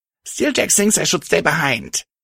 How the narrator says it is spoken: Patch spat venomously

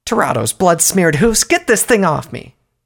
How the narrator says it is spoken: Sumpony yelled, a feminine voice by the tone

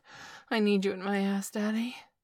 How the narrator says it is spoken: he said with a gasp

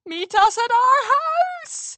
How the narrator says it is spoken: Amber Moon yelled

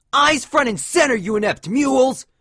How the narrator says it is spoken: one of the suited ponies shouted

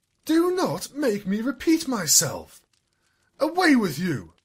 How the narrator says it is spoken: she snapped

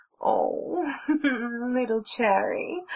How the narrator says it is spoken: she giggled and cooed

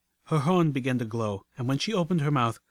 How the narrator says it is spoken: her voice cried out from every rock and timber in the mines

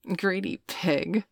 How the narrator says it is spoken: Veronica giggled

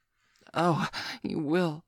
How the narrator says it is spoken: she gasped breathlessly

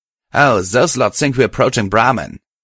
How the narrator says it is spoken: Allegro said with a snort

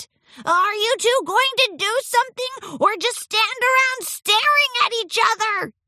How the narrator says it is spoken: yelled over the cacophony of clangs and crashes

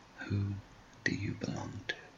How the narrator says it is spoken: tenderly leaning down and whispering in her ear

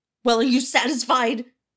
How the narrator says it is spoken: the author shouted

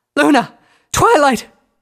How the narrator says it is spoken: she cried out

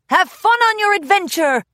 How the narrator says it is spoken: Beau called out

